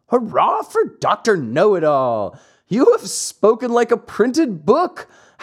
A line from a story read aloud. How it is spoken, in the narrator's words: howled the boys, bursting with laughter